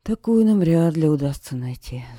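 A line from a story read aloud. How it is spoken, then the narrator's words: Sighing. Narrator (Russian): вздохнул принц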